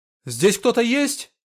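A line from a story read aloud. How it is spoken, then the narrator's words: Shouted. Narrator (Russian): крикнул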